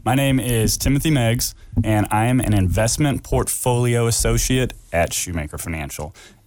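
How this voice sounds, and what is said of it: Smooth radio-style voice. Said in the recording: “got a nice little radio voice”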